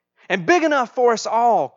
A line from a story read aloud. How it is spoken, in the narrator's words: cried the youngest daughter